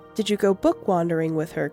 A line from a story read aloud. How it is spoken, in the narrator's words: Granddad asked